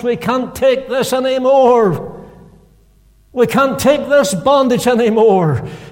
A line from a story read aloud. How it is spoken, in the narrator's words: they cried from the depths of their hearts